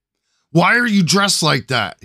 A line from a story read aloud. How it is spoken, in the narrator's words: he yelled